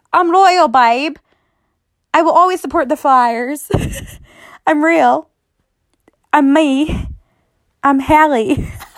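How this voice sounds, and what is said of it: Poor put-on British accent. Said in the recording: “That was my British accent, by the way... that accent was horrible”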